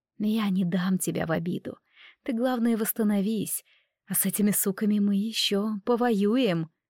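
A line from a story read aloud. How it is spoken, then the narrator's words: Tender whisper. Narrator (Russian): моя нечаянная покровительница подошла ближе и ласково прошептала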